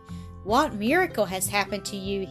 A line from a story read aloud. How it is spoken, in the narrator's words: he exclaimed